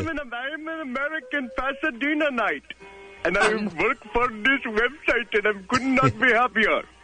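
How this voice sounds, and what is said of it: Speaking with a put-on accent. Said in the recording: “it sounds like you have a bit of an accent, like maybe you're not in Pasadena”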